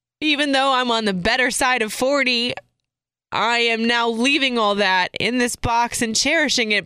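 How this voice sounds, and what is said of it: Slightly emotional, wavering voice. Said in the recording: “as you can tell, I'm getting a little emotional about it”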